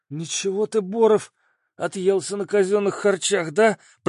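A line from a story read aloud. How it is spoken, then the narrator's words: Strained wheeze. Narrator (Russian): просипел от натуги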